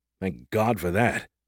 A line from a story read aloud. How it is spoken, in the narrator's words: I muttered